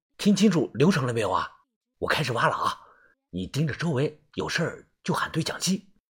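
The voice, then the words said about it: Quiet, hushed speaking voice. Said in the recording (Chinese): “正小声的说着话”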